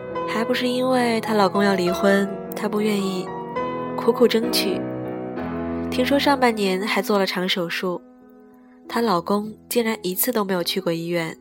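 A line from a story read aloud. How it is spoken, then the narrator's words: Sighing, troubled. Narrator (Chinese): 小 C 叹了口气，皱皱眉说道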